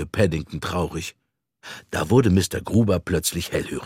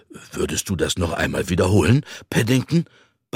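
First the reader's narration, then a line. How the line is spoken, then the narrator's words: Excited plea. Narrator (German): bat aufgeregt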